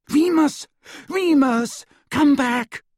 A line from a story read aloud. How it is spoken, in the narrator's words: Hermione cried